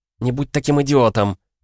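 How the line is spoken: Angry. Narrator (Russian): зло произнесла Сара

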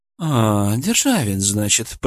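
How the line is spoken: Drawling. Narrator (Russian): протянул Хамелеон

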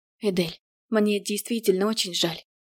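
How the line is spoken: Quiet, sincere. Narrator (Russian): сказала тихо и совершенно искренне

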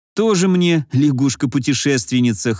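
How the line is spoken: Snorting. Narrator (Russian): хмыкнул

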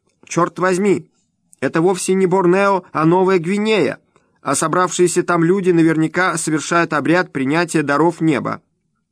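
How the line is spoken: Shouting woman. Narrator (Russian): майор Фрич закричала

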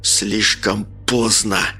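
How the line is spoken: Hissing. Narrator (Russian): прошипел Олег

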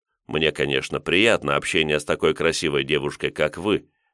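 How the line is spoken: Calm. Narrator (Russian): спокойно проговорил я

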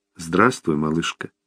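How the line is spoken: Quiet, tender. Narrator (Russian): тихо сказал Томми

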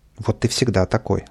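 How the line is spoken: Plain. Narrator (Russian): сказал Павлик

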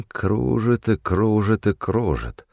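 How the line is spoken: Muttering. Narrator (Russian): бормотал

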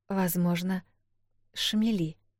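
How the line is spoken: Very quiet. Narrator (Russian): очень тихо произнесла Эл

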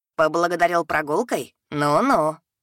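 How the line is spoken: Little dragon snorting. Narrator (Russian): хмыкнул дракончик

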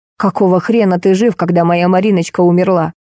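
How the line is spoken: Angry. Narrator (Russian): Таисия Петровна зло сказала

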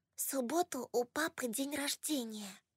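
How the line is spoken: Whisper. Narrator (Russian): прошептала она

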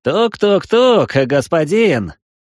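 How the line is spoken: Full-throated shout. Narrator (Russian): крикнул пришелец во все горло

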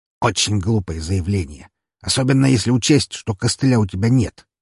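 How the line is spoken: Smirking grunt. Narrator (Russian): хмыкнул он

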